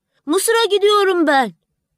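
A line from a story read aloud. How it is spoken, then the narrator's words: Swallow shouting. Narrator (Turkish): diye bağırdı kırlangıç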